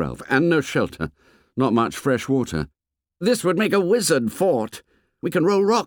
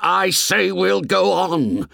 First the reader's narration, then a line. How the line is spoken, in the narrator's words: shouted Ralph furiously